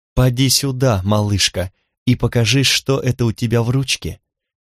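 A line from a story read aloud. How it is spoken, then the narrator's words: Gentle affectionate call. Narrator (Russian): ласково позвала Кимми девочку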